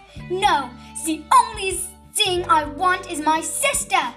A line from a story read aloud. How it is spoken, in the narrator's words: yelled Frank Reese